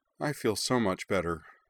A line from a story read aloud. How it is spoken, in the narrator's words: said Emily, sagging wearily